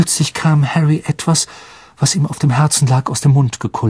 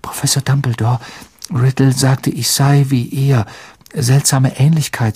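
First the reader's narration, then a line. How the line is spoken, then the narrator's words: Plain. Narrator (German): sagte er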